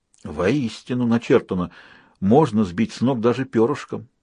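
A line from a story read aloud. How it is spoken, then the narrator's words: Muttered. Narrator (Russian): пробормотал он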